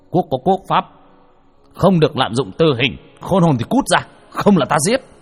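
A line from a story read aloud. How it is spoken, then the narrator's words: Stern shout. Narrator (Vietnamese): tay bộ đầu quát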